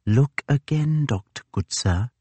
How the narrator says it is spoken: he all but whispered

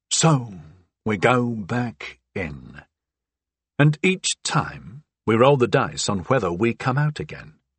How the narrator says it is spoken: I said

